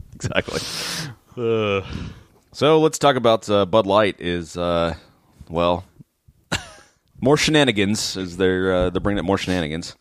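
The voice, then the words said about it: Deep, booming early-morning voice. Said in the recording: “deep, booming morning voice... Radio voice... low voice guy”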